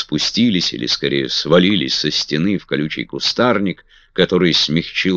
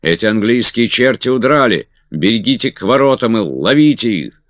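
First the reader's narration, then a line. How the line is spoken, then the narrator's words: Distant shout from above. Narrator (Russian): кто-то кричал с чердака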